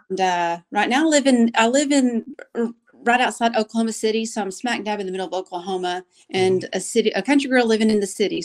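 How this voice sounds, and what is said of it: Strong country twang accent. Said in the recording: “I have a very strong country twang to my voice ... that's why the accent's so strong”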